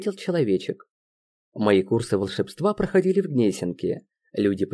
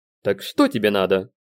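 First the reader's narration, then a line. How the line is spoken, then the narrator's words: Stern question. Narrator (Russian): строго спросил я человечка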